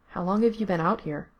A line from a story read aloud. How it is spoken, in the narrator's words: he asked quietly